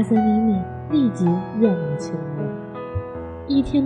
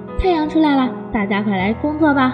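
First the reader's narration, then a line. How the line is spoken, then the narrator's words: Loud bird call. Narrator (Chinese): 八哥鸟高声地叫着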